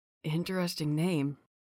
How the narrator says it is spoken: he whispered

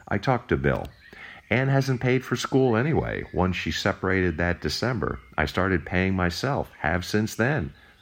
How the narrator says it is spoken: I replied

